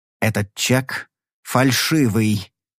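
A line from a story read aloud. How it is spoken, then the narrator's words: Slow speech. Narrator (Russian): медленно проговорил Эксфорд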